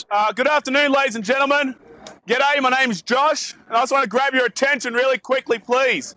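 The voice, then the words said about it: Australian accent. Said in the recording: “As you can probably tell from my accent, I'm not actually from around here. I'm from way, way, way down south in Australia.”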